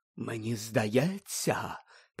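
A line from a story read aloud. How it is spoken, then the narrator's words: Mystical whisper, barely hidden irritation. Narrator (Ukrainian): прошепотіла вона містично, однак свого очевидного роздратування приховати все-таки не зуміла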